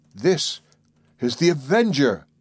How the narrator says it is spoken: exclaimed

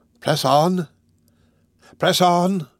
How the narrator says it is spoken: cried Fagin

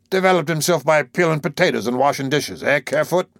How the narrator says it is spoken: Again, that worthy grunted

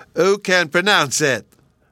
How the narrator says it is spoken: Bruno triumphantly cried

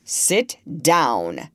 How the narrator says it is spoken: said in a very stern voice

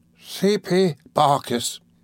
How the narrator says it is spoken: cried faintly

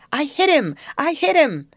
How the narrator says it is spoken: Then he shouted

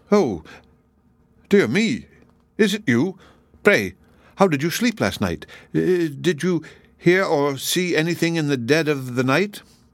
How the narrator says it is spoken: The giant started when he saw him, and he began to stammer out

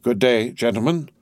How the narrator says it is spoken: said Monsieur Defarge

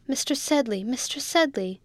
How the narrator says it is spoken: cried the boy faintly

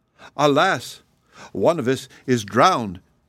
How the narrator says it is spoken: cried

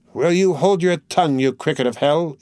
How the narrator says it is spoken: cried, still from the same obscure corner of the place

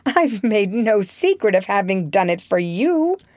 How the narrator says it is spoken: she broke out with a sudden laugh

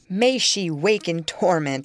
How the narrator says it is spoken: cried with frightful vehemence, groaning in a sudden paroxysm of ungovernable passion

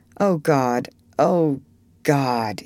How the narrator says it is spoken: groaned

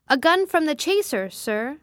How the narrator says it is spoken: shouted the man aloft

